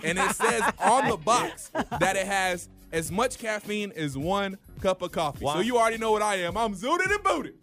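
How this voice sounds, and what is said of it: Yelling excitedly. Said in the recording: “Why are you yelling at me? ... Why are you yelling right now?”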